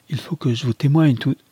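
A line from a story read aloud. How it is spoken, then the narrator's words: Exclaiming. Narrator (French): s'écria Lucius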